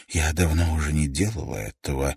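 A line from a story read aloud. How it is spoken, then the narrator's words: Breathy exhale. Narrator (Russian): выдохнула Пэт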